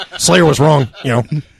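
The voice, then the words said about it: Imitates another person's voice. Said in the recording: “I'm impersonating Andrew. Dead Andrew.”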